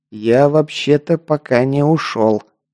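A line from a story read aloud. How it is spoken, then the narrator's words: Forced through clenched teeth. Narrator (Russian): процедил я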